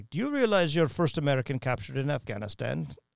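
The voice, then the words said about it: Put-on Russian accent. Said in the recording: “my Russian accent is about as good as this guy's”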